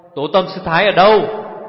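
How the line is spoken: Forceful shout. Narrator (Vietnamese): Chàng dằn giọng quát lên

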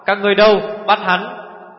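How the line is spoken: Emboldened shout. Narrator (Vietnamese): Quy Tư Vương can đảm lên quát

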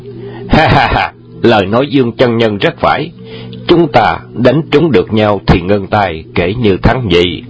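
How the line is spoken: Loud agreeing laughter. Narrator (Vietnamese): Đoàn Hoàng Gia và Hoàng Dược Sư đồng cười lớn, tán đồng và nói

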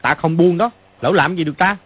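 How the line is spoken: Strained, angry shout. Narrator (Vietnamese): Mã Quan Tá ngã tuy không đau, nhưng bị hai chân Phàn Nhất Ông đạp lên cái bụng, rất khó chịu, cũng tức giận mà quát lên

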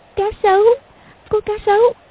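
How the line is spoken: Trembling, frightened voice. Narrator (Vietnamese): Công Tôn Lục Ngạc run rẩy nói

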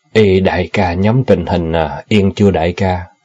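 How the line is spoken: Sighing, changed tone question. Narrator (Vietnamese): Hắn ta thở dài rồi đổi giọng hỏi

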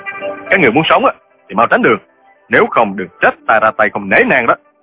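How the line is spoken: Bold shout. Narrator (Vietnamese): Trương Du Kỳ hùng dũng quát

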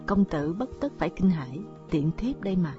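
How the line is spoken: Soft sweet voice outside. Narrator (Vietnamese): ngoài cửa sổ một thanh âm vừa ôm nhu vừa ngon ngọt khẽ cất lên

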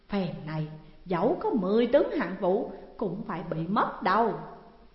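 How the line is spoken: Pleased muttering. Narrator (Vietnamese): lòng mừng rỡ, mới lẩm bẩm

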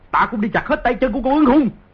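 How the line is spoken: Grief-stricken furious roar. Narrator (Vietnamese): Di Tiểu Bảo không kìm được bi phẫn cùng cực, gầm lên

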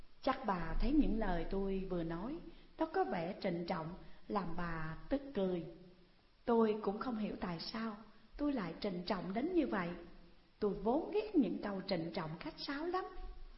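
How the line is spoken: Polite, gentle, slightly playful. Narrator (Vietnamese): Giọng Hằng vừa lễ phép, dịu dàng, vừa hơi có vẻ tinh nghịch

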